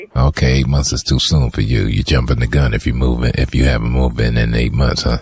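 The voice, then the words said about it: Sexy voice. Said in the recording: “That's a sexy voice you got.”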